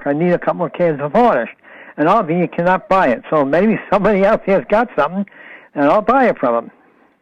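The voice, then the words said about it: Non-local regional accent. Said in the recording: “That accent, I love that accent. That's definitely not from around here.”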